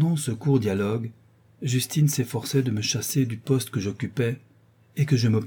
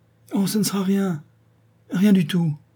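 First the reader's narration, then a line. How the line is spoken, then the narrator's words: Trembling reply. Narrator (French): répondit-elle d'une voix tremblante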